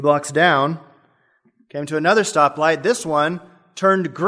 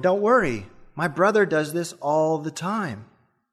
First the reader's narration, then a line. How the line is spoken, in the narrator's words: The driver said calmly